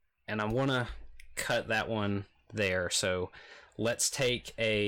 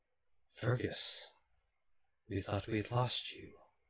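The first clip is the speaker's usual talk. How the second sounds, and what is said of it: Eerie dual-layered character voice. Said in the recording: “in that dual voice”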